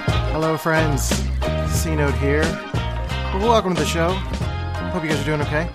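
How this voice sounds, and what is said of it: Flat monotone speaking voice. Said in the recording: “Don't be confused by my monotone voice. That's just my personality type.”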